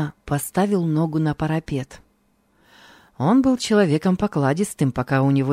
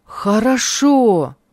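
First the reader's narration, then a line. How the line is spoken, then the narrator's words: Joyful exclamation. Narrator (Russian): радостно воскликнул Хармий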